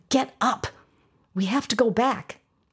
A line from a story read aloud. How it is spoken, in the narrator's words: whispered loudly at him again